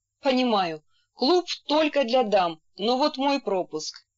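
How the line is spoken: Laughing. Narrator (Russian): Касьян рассмеялся и сказал

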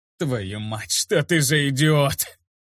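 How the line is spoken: Laughing loudly. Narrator (Russian): Лукас расхохотался

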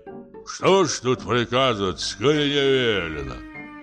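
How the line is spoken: Grumbling. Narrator (Russian): проворчал коридорный

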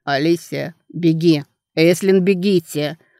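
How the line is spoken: Hoarse shout. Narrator (Russian): Хриплый крик Дана Регана

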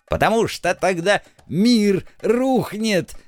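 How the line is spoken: Grandmother's dramatic falsetto shriek. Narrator (Russian): драматическим фальцетом завизжала бабуля

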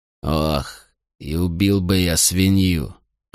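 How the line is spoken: Grumbled. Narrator (Russian): проворчал Мител

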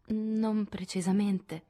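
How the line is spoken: Stammered. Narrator (Italian): balbettò Amy

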